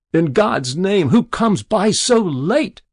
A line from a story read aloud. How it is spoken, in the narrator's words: cried Jabez Stone in an ague of fear